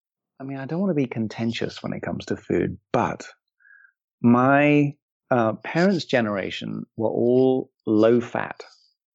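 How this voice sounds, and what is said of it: English accent. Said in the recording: “you grew up in England, which I'm sure people could also gather from the amazing accent.”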